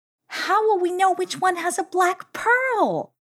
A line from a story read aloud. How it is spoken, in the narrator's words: cried Shoutin